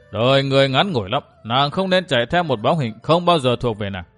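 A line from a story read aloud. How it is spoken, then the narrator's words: Sneering. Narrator (Vietnamese): Nhếch môi cười khẩy, Kinh Hồng nói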